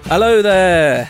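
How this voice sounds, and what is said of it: Obi-Wan Kenobi impression. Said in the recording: “smoothly transition into Obi-Wan Kenobi... That's why I'm not playing Obi-Wan Kenobi... Did a dialect coach teach you how to do that?”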